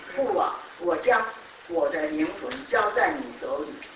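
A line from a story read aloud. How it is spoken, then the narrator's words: Loud cry. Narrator (Chinese): 耶稣大声喊着说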